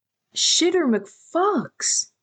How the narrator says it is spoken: Thomas said loudly

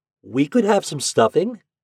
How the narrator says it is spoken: interrupted eagerly

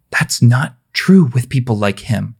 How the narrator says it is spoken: her mother said quietly

